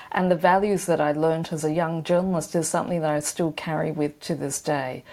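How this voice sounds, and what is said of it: Australian accent. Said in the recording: “you can tell by my accent, I'm a very proud Australian”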